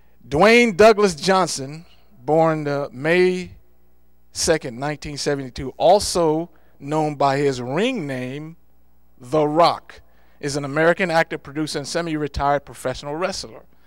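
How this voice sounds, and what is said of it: Loud raised voice. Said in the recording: “you may want to turn this down a little bit because I'm going to be raising my voice here”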